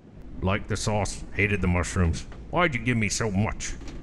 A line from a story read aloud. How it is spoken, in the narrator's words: grumble